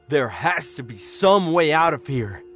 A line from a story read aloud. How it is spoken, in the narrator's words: Dad growled